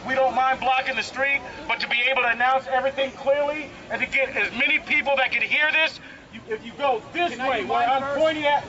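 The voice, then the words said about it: Very fast speech. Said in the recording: “It's so quick. ... I'm talking so fast.”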